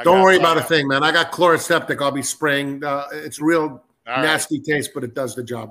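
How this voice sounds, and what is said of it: Worn-out, hoarse voice. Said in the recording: “My voice is a little shot right now”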